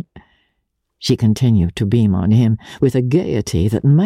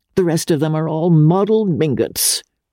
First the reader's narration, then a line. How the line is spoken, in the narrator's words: cried the old lady scornfully